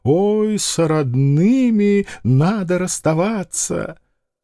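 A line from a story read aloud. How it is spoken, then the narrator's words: Moaning and crying. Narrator (Russian): А женщина застонала и заплакала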